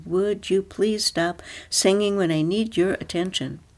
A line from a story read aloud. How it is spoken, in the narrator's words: cried